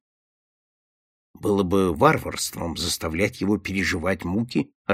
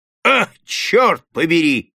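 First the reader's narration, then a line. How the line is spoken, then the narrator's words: Shouted. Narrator (Russian): закричал Дункан Уорнер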